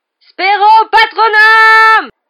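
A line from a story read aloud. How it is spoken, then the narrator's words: Yelled. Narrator (French): hurla-t-il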